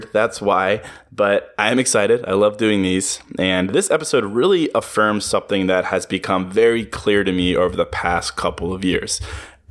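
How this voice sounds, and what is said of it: Slightly congested voice from a cold. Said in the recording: “I have a little bit of a cold, so if I sound weird”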